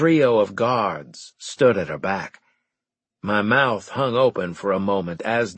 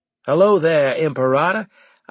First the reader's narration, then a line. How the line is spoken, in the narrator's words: I said in a cheery tone